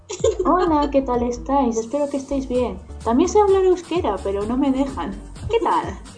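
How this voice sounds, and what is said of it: Spain Spanish accent. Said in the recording (Spanish): “¿Escuchas un acento español? Así es. es española. ... demuestra tu español con acento.”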